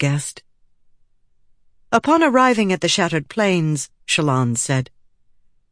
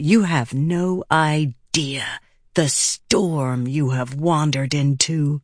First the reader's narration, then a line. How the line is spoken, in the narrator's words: Shallan hissed